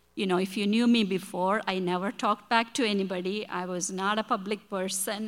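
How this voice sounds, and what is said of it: Non-native accent, broken English. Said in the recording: “my English is broken. My accent is bad.”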